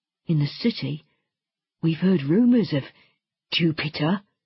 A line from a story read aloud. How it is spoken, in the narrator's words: he stammered at last